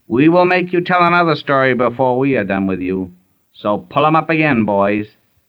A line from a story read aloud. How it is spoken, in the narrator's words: one of them cried